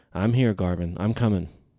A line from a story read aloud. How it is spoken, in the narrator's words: He called out